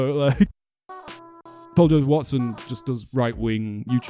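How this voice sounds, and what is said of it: Usual voice. Nothing is said of it.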